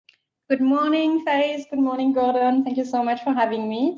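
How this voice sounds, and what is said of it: French accent. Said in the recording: “As you can recognize from my accent, I come from France.”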